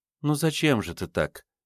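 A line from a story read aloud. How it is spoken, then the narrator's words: Gentle. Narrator (Russian): мягко произнесла Наталья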